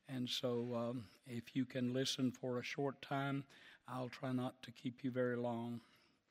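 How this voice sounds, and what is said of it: Slightly hoarse voice. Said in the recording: “forgive my voice. I'm a little hoarse.”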